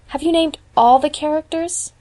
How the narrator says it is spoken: asked Diana wistfully

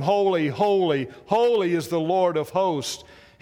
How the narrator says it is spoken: he says

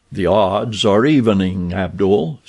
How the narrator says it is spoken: said Tarzan with a low laugh

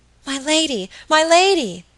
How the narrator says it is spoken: cried Phoebe

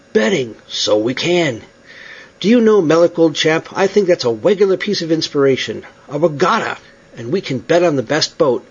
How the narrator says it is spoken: he exclaimed again

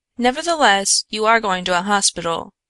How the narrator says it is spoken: she firmly said

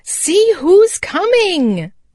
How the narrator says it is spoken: cried Happy Jack

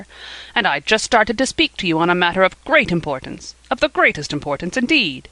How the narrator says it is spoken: he repeated irritably

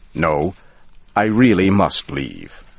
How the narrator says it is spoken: I said firmly

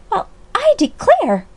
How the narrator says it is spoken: cried Alexia Reese, unable to find another word

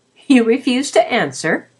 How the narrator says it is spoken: she laughed

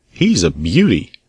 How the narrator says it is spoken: The girl laughed

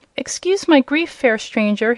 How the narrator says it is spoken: he said in a sad voice

